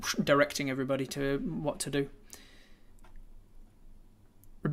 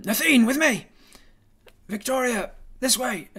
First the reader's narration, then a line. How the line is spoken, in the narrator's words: shouting